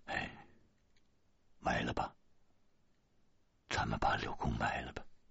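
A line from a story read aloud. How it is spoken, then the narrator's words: Sighing. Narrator (Chinese): 我叹了一口气，对大个子说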